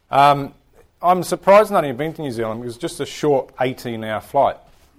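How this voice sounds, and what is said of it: New Zealand English accent. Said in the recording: “I speak with a funny accent. The accent's actually English.”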